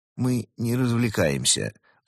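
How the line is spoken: Objecting. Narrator (Russian): возразил Марио

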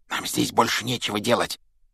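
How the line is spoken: Whisper. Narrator (Russian): прошептал Рон Гарри

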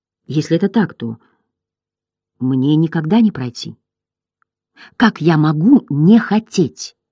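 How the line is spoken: Quiet. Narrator (Russian): тихо произнес

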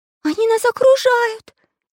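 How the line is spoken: Frightened shout. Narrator (Russian): испуганно закричала Настенька

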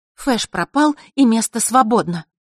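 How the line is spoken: Angry. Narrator (Russian): зло докончила Василиса

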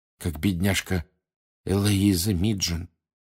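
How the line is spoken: Quiet. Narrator (Russian): тихо сказала Ханна Эбботт из Пуффендуя

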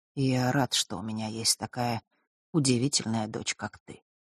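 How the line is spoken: Quiet. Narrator (Russian): продолжил он тихо

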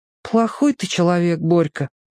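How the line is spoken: Sad, after a pause. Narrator (Russian): помолчав грустно сказал Петька

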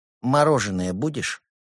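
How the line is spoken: Calm question. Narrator (Russian): спокойно спросил в ответ Евгений

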